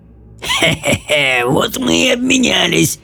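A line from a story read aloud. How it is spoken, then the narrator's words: Through hoarse laughter. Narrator (Russian): проговорил Кортинг сквозь хриплый смех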